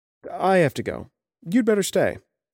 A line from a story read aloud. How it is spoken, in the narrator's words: I said